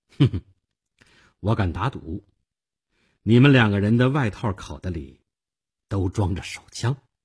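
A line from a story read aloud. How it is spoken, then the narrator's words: Faint smile. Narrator (Chinese): 淡淡的一笑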